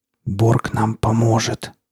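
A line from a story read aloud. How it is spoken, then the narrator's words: Whispered, young woman. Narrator (Russian): прошептала девушка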